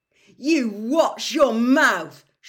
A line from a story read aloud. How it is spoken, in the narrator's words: shouted Ron